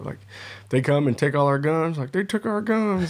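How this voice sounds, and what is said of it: Put-on Southern US accent. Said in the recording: “you used um, a Southern accent just then when you said the take our guns”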